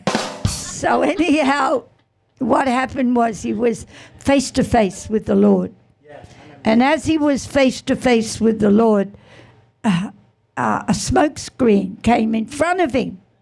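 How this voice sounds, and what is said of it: Hoarse, scratchy voice. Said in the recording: “Just my throat's a bit hoarse. Bit hoarse.”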